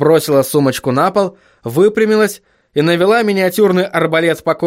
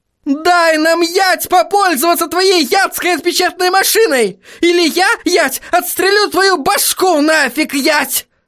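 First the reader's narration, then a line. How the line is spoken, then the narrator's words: Furious yelling. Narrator (Russian): заорала она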